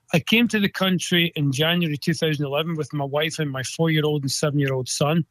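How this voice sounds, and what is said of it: Scottish accent. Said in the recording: “I'm originally from Scotland. Anybody that hears the accent, I'm a Scottish person”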